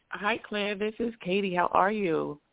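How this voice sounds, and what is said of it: Bubbly, cheerful voice. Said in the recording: “Love to hear the bubble in your voice.”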